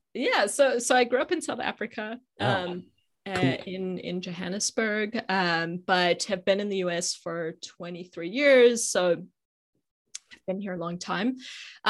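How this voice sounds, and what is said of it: South African accent. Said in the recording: “accent. Where does the accent from?”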